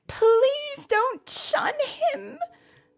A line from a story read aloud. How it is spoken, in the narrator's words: Naomi cried